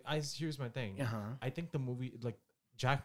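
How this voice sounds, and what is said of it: Usual voice. Nothing is said of it.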